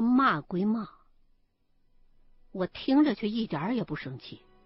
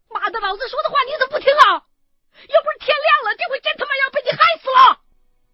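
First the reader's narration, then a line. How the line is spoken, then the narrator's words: Angry cursing shout. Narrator (Chinese): 秦一恒一喊完这嗓子，就开骂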